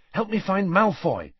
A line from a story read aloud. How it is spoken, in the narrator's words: said Harry urgently